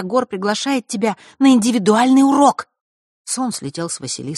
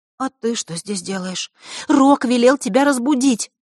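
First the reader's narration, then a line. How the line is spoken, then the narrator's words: Alarmed whisper. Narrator (Russian): встревоженно прошептала Захарра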